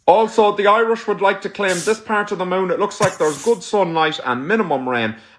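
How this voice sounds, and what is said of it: Over-the-top Irish accent. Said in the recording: “that accent is so over the top to me. Is that a regional Irish accent?”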